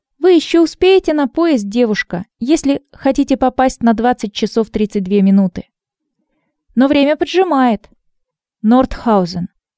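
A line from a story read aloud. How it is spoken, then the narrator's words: Firm voice. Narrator (Russian): твердым голосом сказала Ирина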